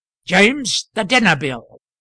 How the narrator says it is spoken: he exclaimed with stentorian voice

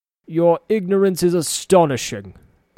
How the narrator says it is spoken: he scoffed

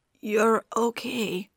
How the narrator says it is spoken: his voice cracked

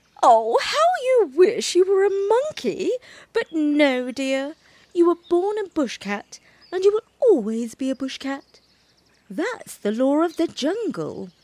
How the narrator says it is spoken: Mother Bushcat laughed and said

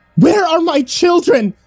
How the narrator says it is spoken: Grace yelled as she regained consciousness

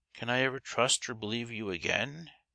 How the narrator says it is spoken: asked sadly

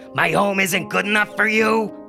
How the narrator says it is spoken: yelled

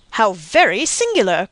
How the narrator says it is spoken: cried Monte Cristo, with well-feigned astonishment

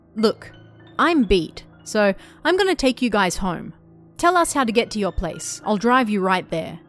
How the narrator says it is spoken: M said to the girls in a strong tone

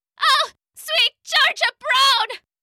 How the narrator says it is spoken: Pickles cried again

